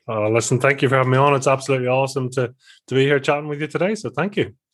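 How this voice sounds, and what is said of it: Northern Irish accent. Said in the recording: “we can hear the difference in the accent ... from the north part of Ireland and just outside of Belfast”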